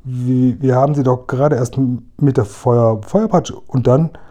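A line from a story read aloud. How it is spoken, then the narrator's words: Stammering. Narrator (German): stammelte Seppl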